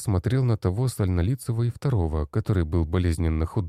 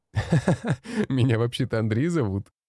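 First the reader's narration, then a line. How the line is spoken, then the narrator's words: Laughing. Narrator (Russian): Рассмеялся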